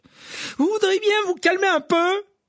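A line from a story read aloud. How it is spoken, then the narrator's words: Shouted. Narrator (French): cria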